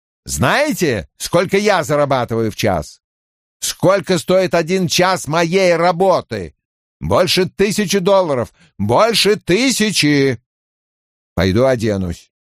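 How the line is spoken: Booming. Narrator (Russian): Кован прогремел

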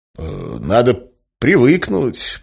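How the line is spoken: Diplomatic mutter. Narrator (Russian): пробормотал я дипломатично

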